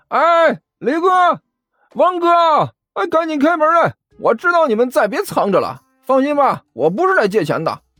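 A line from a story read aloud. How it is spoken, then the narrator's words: Shouting from outside. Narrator (Chinese): 外面传来了甘球的喊声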